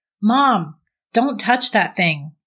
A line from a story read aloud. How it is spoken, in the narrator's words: Brett yelled